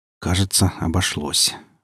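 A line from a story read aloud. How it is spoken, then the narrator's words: Said in low voice. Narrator (Russian): вполголоса сказал Гриф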